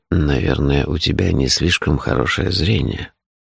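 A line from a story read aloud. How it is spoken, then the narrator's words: Grumbling. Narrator (Russian): проворчал он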